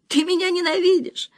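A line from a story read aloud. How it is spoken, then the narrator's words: Sobbing. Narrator (Russian): всхлипывала она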